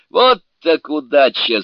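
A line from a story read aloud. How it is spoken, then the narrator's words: Laughing exclamation. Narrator (Russian): смеясь воскликнул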